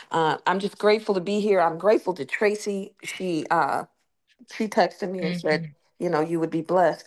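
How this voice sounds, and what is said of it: Hoarse voice. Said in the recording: “I'm hoarse getting over this worldwide flu sickness”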